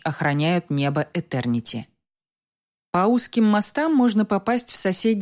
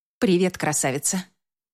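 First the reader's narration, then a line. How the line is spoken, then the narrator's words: Muttering. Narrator (Russian): Бормочу я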